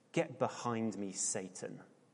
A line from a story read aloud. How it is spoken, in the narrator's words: he said